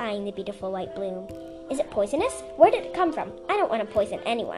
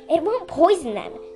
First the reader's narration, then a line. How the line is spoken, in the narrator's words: Sundu said impatiently